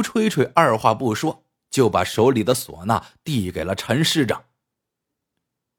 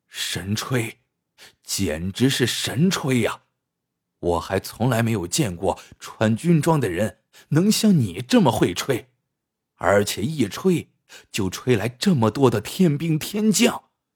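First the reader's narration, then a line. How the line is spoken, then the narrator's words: Admiring exclamation. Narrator (Chinese): 吴吹吹赞叹道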